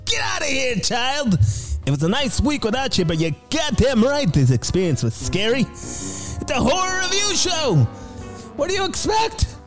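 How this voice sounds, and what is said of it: Jerry Seinfeld impression. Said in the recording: “my Jerry Seinfeld impersonation.”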